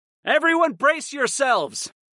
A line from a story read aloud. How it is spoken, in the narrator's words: I called out